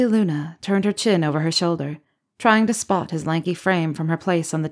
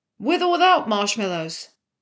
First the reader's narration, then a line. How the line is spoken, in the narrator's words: Teddy shouted from the kitchen